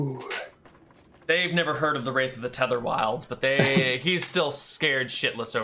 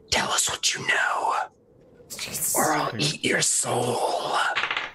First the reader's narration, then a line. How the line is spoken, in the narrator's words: I whisper in his ear